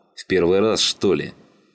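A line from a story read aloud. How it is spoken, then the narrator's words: Displeased growl. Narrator (Russian): недовольно зарычал Слановский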